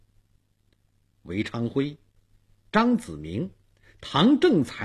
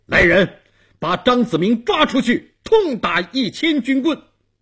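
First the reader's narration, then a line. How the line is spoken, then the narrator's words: Stern shout. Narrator (Chinese): 东王厉声喊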